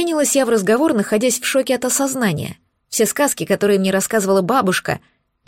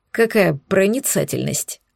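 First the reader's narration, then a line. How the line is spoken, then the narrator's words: Snorting man. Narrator (Russian): хмыкнул брюнет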